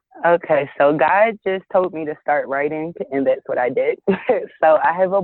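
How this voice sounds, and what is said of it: American East Coast accent. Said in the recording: “I heard that in your accent... I hear Philly in your accent... I hear that East Coast”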